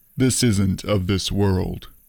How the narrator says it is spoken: I replied gravely

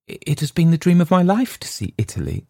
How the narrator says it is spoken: gasped

